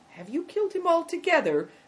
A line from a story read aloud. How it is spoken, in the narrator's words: asked Christian anxiously